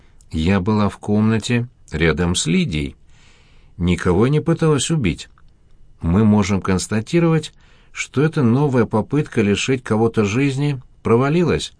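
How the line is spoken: Plain. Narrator (Russian): сказала Лидия Ивановна

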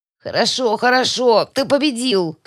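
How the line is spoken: Strained croak. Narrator (Russian): кряхтя от напряжения прохрипела

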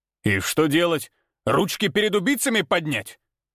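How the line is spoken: Angry bark. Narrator (Russian): Зло рявкнул Николай

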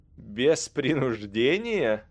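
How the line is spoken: Harsh bitter laugh. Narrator (Russian): Калидрон засмеялся, и смех его был резким от горечи

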